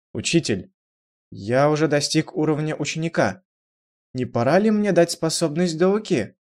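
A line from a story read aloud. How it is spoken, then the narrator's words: Timid question. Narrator (Russian): несколько робко спросил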